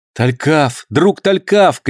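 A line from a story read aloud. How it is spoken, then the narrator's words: Shout. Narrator (Russian): крикнул Роберт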